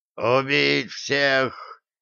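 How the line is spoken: Hoarse rasp. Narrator (Russian): прохрипел Хастер

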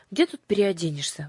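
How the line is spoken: Sighing. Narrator (Russian): вздохнула Аннушка

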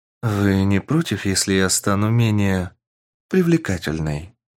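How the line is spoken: Slightly tired voice. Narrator (Russian): Немного уставшим голосом спросила девушка

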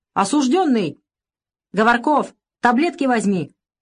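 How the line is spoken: Shout after someone. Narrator (Russian): крикнул вдогонку капитан

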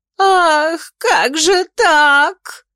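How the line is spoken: Sobbing. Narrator (Russian): рыдала Офелия

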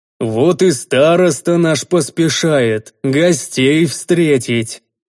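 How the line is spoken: Booming villager. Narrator (Russian): прогудел деревенский мужик

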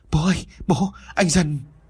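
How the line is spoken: Trembling voice. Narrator (Vietnamese): Mai run rẩy vừa nói

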